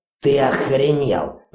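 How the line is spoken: Growled. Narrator (Russian): прорычал Ури

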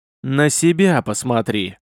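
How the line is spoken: Loud strained wheeze. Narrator (Russian): с громким хрипом произнес красномордый, изо всех сил пытаясь вырваться

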